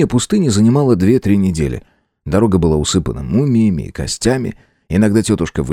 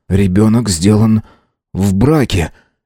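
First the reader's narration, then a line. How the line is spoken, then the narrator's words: Uncertain. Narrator (Russian): неуверенно сказал принц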